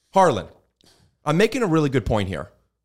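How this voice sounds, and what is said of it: Raised, loud voice. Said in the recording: “when you raise your voice, ... lower my voice.”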